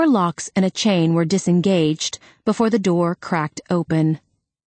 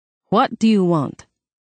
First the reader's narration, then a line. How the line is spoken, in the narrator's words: Her voice was deep and heavily accented